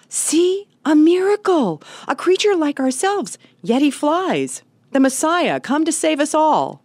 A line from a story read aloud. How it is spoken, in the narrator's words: the creatures downstream cried